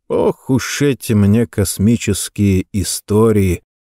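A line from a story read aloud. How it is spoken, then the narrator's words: Sighing. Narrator (Russian): вздохнул он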